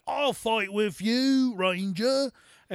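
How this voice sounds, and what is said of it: Imitated soldier character voice. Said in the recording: “these are accurate impersonations”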